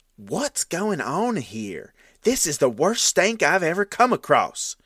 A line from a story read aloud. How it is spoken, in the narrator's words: one of them exclaimed